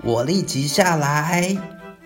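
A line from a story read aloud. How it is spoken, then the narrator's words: Shouting. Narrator (Chinese): 二哥喊叫着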